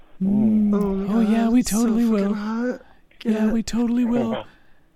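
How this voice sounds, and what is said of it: Man putting on a girl voice. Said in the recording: “quit doing that stupid girl voice”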